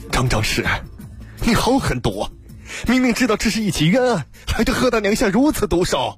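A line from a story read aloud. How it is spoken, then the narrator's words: Furious shout. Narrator (Chinese): 王汉大怒喝道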